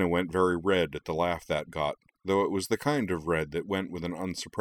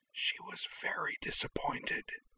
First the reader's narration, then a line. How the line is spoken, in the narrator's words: Around the back of her hand, she stage whispered mock confidentially